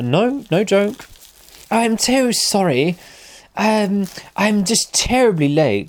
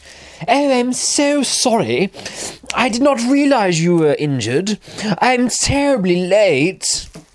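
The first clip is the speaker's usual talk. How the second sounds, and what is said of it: Exaggerated posh Queen's English accent. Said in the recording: “in the most poshest accent you have ever heard, the Queen's English”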